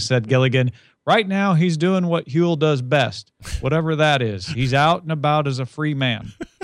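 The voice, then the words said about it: A pretty good impression. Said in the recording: “It's a pretty good impression.”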